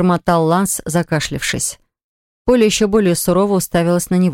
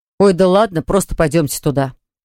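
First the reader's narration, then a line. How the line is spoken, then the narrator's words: Angry blurt. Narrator (Russian): сердито выпалил Ланс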